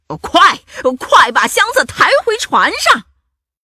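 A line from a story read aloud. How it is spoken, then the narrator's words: Excited shout. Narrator (Chinese): 头目汉克兴奋的嚷道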